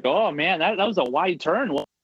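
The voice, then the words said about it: Put-on Canadian-sounding rural accent. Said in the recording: “rural Pennsylvania ... I'm doing, like, a Canadian accent”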